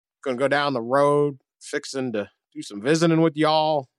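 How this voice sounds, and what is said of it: Brian Kelly's fake Southern accent. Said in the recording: “Brian Kelly's accent, Southern accent ... the fake accent”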